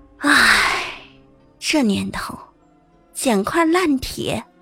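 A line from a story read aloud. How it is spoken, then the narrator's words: Scavenger sighing. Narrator (Chinese): 拾荒者 感叹道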